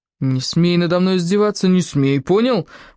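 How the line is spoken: Hornet wailing. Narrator (Russian): взвыл шершень

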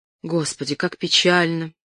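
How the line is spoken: Sigh. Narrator (Russian): вздохнул Кристиан

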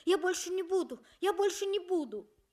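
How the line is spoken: Frightened. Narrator (Russian): сказал испуганно

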